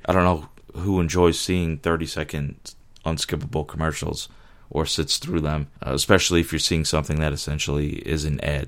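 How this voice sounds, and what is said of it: Hoarse, worn-out sick voice. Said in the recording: “my voice is shot. I'm sick”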